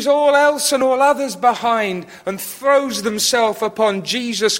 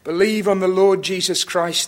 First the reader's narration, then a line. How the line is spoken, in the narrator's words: they said